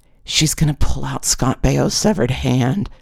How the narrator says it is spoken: Dawn Marie whispered to me

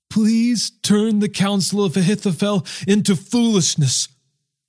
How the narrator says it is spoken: David pleaded

